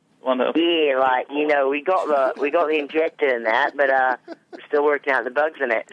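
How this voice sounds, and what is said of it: Strong Australian accent. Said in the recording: “That's pretty bad accent ... Throw a shrimp on the barbie ... Crikeys!”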